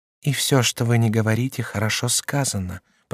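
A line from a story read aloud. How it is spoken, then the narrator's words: Whispered into ear. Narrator (Russian): прошептала Мария Стюарт на ухо своему мужу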